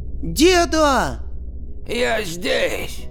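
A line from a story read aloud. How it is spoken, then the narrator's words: Old man shouting. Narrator (Russian): крикнул пенсионер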